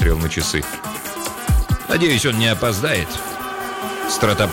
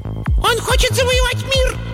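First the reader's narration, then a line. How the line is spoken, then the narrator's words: Squeaky shriek. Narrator (Russian): запищал один из либлей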